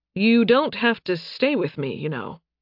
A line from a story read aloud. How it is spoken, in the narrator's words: Nathan said